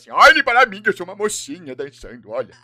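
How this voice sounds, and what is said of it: Imitates a cartoon character's voice. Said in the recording (Portuguese): “eu gostava de imitar ele. O Rei Julian pra ele e assim:”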